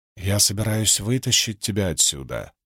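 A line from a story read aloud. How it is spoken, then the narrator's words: Pleading whisper. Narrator (Russian): прошептала Венли в ритме мольбы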